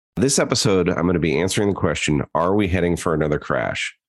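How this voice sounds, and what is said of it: Voice sounding a bit off, sick. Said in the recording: “I'm recovering from being sick a bit, so my voice sounds a little different”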